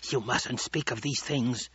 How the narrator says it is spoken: the old woman hissed

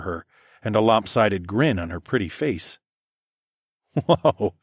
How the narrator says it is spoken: I laughed

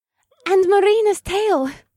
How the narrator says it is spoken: Morgana squealed with delight

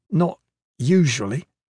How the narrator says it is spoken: Kip said uneasily

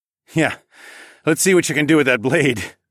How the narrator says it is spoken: laughed

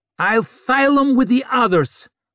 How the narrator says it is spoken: snarled Vic

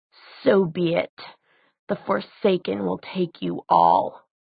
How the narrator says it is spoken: Between his teeth, he hissed

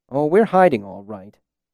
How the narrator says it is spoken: Bass said bitterly

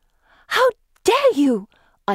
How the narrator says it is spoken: gasp

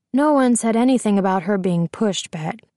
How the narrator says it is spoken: Officer Hamilton says

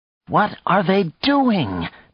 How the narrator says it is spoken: Nadia cried

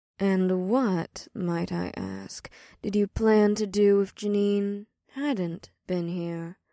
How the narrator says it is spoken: Ada asked Leah with a purr

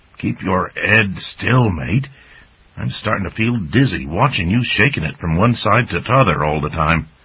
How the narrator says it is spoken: Dippler grumbled

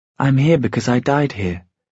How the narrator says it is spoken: she said, her voice growing in strength

